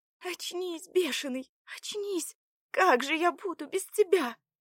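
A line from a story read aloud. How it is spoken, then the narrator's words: Demanding desperate shout. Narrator (Russian): требовательно кричала Заряна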